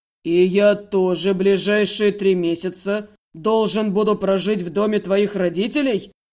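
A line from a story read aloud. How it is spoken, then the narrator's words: Furious growl. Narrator (Russian): явственно рычал, взбешенно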